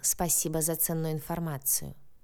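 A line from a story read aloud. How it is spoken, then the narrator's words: Quiet snort over phone. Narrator (Russian): На том конце связи тихо хмыкнули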